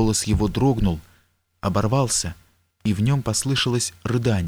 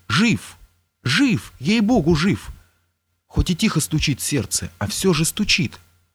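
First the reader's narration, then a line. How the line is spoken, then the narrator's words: Cheerful exclamation. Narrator (Russian): Вильяминов с веселой улыбкой воскликнул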